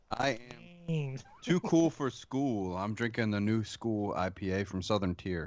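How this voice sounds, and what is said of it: Put-on Philadelphia accent. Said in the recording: “That was his best Philly impression.”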